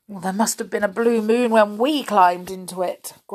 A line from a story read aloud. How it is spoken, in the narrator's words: groaned Joe